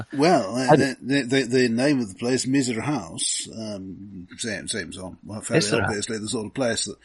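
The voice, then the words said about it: Speaks with a noticeable accent. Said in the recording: “do pardon my accent.”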